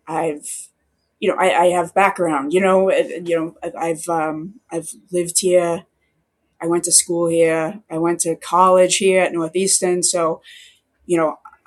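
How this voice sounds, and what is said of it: Speaks with a regional accent. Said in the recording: “how do you still have the accent? ... when they lost their accent”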